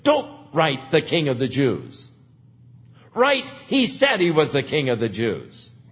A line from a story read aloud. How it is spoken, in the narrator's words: Pilate, and I'm sure with a sneer, said,